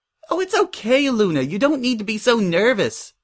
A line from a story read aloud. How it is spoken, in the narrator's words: Pinkie laughed